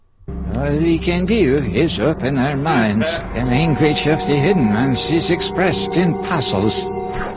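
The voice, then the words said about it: Vague Scandinavian accent, eerie. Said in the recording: “I know this is just an accent, but it sounds a lot like something specifically from Twin Peaks ... a vague Scandinavian accent ... it sounds like backward speech played back forward”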